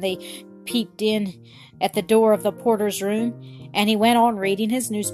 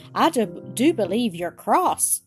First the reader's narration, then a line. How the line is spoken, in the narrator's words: said Bobby with a sigh